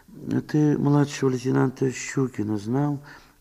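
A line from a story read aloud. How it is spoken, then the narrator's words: Barely audible question. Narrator (Russian): спросила Мария Степановна, чуть слышно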